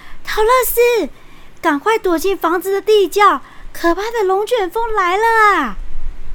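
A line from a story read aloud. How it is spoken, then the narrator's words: Loud alarmed shouting. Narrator (Chinese): 胡斯姑爹和爱莲姑妈不禁高声大叫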